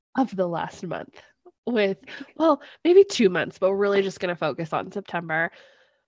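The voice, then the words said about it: Sick-sounding voice. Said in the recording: “now I'm the sick one. If anyone can't tell by my like super sexy voice.”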